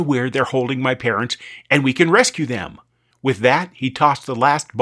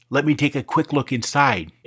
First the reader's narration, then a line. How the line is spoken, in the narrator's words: Amy whispered